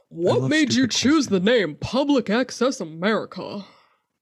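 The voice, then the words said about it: Silly, goofy put-on voice. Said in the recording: “I'm going to say it in a stupid voice because I feel like it sounds stupid”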